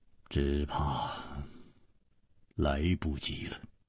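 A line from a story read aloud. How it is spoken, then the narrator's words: Sighing. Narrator (Chinese): 楚留香叹了一口气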